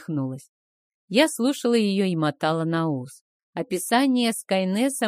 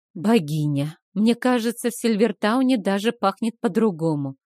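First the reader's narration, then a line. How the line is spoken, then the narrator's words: Sighing. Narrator (Russian): вздохнула я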